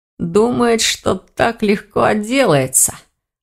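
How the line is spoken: Scoffing grunt. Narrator (Russian): хмыкнул Элгар

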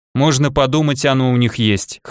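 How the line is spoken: Scoffing grunt. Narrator (Russian): хмыкнул Илья

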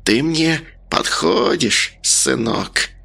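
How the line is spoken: Hissed. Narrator (Russian): Она прошипела

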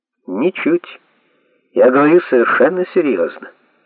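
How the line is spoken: Calm reply. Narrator (Russian): спокойно ответил Майкл

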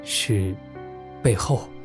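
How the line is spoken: Cool low murmur. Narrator (Chinese): 隐约凉凉的低声道

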